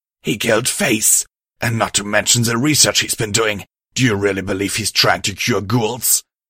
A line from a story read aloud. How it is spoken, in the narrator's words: Iker Sludge said angrily